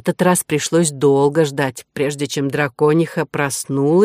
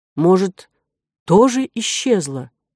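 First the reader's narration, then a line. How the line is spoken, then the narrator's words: Uncertain question. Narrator (Russian): неуверенно спросил Дисципон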